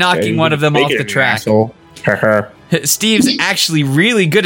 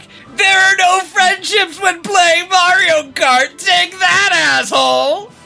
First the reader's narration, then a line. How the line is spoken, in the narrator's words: Steve just keeps laughing and shouting back